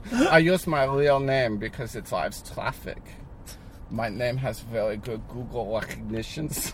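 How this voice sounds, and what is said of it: German accent, Klaus Schwab impression. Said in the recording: “That's a really good accent. Can't lie.”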